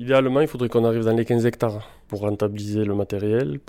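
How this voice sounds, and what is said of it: Slight local French accent. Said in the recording (French): “Vous avez un, un petit accent, vous êtes euh, local”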